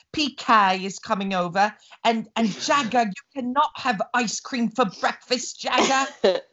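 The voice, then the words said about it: Imitates another person's voice. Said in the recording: “good impressions of the Housewives ... that's brilliant”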